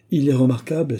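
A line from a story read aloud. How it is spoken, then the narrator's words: Exclaimed. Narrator (French): s'écria M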